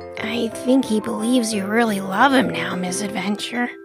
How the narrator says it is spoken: Marty whispered

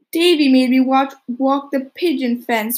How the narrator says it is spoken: wailed Dora

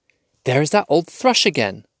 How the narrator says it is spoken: he cried

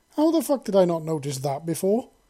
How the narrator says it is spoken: Glory exclaimed

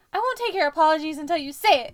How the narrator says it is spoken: Harry screamed

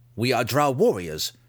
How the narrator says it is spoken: Dinan declared sternly

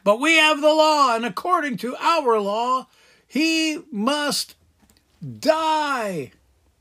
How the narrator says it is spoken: the Jewish leaders shouted back

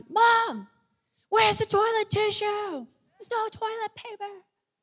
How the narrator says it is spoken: she's shouting at me from the CR

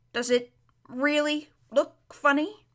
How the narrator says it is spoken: he asked in an anxious voice

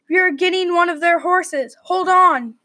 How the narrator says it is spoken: yelled Charles

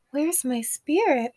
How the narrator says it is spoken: Oshun cried when she realized what had happened

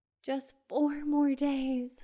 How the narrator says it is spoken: sighed Carol

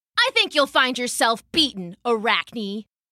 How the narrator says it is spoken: she sneered

